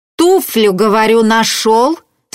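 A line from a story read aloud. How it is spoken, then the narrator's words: Stern question. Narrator (Russian): строго спрашивал Яковлева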